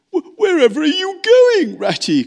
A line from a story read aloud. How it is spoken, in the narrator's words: cried tearful Mole, looking up with alarm